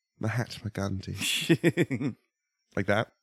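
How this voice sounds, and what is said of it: Put-on imperialist British accent. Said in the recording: “my spot-on imperialist British accent ... Dialect ... That's something you do very well”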